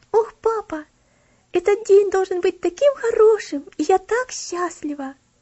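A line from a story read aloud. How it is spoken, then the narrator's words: Joyful exclamation. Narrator (Russian): радостно восклицала Элси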